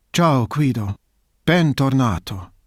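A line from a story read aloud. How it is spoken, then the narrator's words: Called out. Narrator (German): Paula rief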